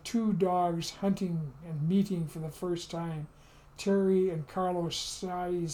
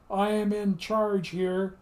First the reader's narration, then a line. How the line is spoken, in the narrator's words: In his booming